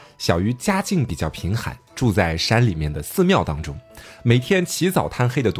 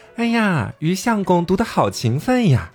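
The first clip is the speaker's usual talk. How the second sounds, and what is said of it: Coy, sweet female voice. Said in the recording (Chinese): “娇滴滴的声音”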